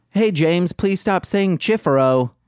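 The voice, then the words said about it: Stereotyped gay cartoon voice. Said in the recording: “This is the gay accent that I know.”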